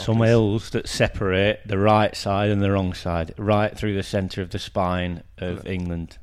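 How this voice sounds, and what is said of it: Exaggerated thick northern English accent. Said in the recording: “you've sort of leaned into the very thick regional accent as you describe this. It's all gone a bit by gum in here.”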